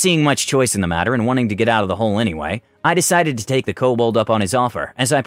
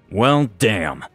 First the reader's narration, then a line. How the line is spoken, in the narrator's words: I groaned